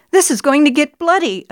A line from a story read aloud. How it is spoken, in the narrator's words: I gasped